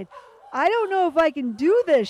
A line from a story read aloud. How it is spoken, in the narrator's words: she screamed